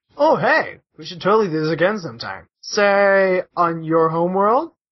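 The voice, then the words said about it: Performs a character's voice. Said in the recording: “I'll do the Sorin... I'll do the voices.”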